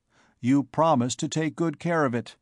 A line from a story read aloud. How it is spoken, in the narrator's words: he told her coldly